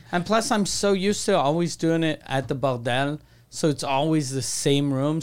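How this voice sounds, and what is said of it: Speaker's own foreign accent. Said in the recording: “people could understand my accent”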